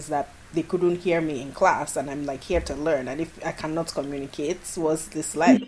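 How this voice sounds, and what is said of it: Mixed Nigerian-American accent. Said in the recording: “my accent is like a weird mishmash of, you know, Nigerian and American ... my accent is, you know, it probably fluctuates, but is more Nigerian on this podcast”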